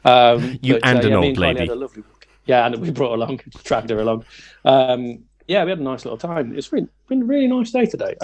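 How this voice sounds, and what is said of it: Regional accent that sounds sarcastic. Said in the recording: “That sounded sarcastic, but it really wasn't. ... That's just my accent. Everything sounds sarcastic when you're from my neck of the woods.”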